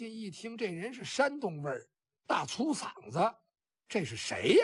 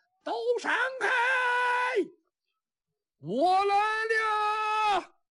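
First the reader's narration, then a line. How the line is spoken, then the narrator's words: Distant shout. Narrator (Chinese): 远处有人喊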